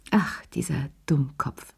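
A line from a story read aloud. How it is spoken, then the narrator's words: Sighing. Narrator (German): seufzte sie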